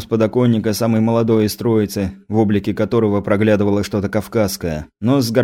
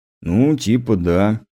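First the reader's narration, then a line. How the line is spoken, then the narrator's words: Uncertain, hesitant. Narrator (Russian): неуверенно ответил лысый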